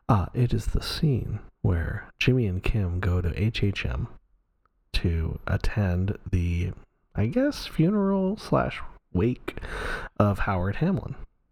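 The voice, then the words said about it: Calm, measured public-radio announcer voice. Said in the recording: “this is my NPR voice.”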